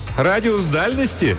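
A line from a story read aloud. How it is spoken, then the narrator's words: Laughing. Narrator (Russian): она засмеялась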